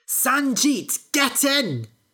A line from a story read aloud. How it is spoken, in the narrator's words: She shouted